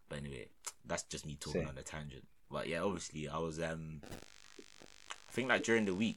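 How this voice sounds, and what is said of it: Deep, slightly worn-out voice. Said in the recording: “I was even deep in my voice. You know my voice is even like it's a bit gone from like the weekend just from talking”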